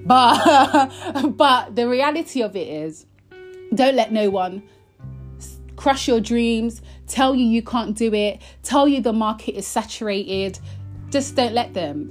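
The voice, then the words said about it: Passionate, emphatic speaking voice. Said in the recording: “you can tell in my voice that I'm just really passionate about this topic”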